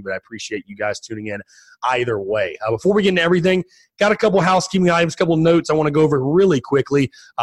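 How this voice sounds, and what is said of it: Raspy, strained voice. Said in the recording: “as you can hear, I apologize for the voice. Still fighting the allergies a little bit, and obviously did a lot of screaming on Saturday... So fighting to keep my voice intact... I apologize if I sound a little raspy”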